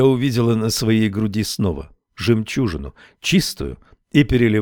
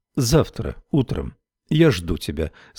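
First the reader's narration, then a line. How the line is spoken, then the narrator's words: Tender. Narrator (Russian): сказал он мне ласково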